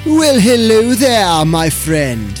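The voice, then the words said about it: Bad put-on British accent. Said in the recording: “I apologize for that horrifying British accent”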